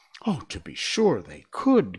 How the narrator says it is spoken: cried the Scarecrow

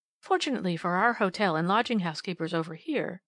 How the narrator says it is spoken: she replied

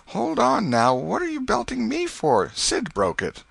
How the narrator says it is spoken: Tom cried out

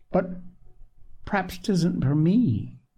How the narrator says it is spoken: said Polly timidly

